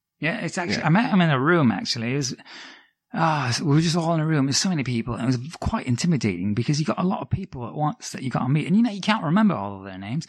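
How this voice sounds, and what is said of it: Put-on accent. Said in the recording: “I can't keep this accent up. ... that was good, though. That was good.”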